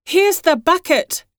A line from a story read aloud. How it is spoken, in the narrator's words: cried Hione